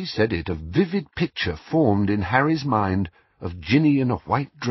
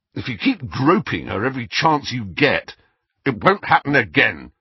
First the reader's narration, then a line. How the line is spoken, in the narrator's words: said Harry harshly